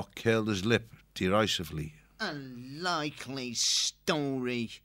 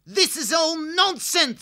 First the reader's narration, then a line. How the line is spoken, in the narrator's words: snapped as he paced the dais steps angrily